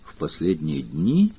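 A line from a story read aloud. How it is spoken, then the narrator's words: Thoughtful repetition. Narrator (Russian): задумчиво повторил Сварог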